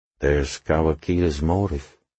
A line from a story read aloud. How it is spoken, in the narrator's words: he said quietly